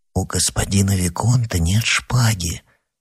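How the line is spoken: Hesitant whisper. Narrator (Russian): нерешительно прошептал Оливен

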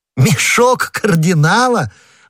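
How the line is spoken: Laughing. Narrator (Russian): расхохотавшись, сказал Д'Артаньян

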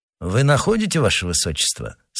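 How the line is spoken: Plain. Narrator (Russian): спросил Лараме

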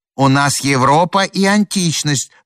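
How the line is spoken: Shouting in unison. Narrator (Russian): дружно закричали антиквары

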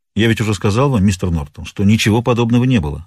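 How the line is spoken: Plain. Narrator (Russian): ответил Риддер

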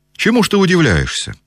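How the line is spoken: Cheerful. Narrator (Russian): весело заговорил Николай Петрович

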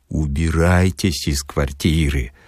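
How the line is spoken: Warm intimate whisper. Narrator (Russian): задушевно шепнул Филипп Филиппыч

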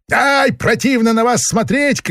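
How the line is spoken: Shouting. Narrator (Russian): кричал он провожающим

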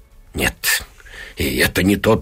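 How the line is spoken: Muttering. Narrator (Russian): бормочет она

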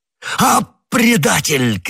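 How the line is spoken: Shouting. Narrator (Russian): крикнул Бекингем

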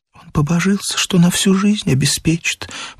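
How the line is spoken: Whisper. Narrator (Russian): прошептала Катя

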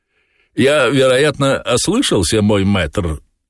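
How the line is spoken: Plain. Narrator (Russian): ответил кот

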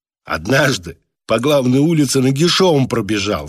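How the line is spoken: Choking with laughter. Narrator (Russian): сказал Клеандр, давясь от хохота

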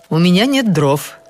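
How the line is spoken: Cheerful. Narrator (Russian): сказала она мне весело

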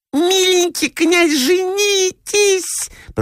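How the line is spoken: High squeak. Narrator (Russian): пропищала третья

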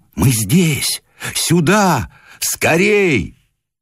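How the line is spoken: Calling out, shouting. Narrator (Russian): звали, кричали ему

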